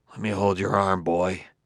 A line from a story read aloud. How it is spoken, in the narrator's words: He muttered to the nearest of the robots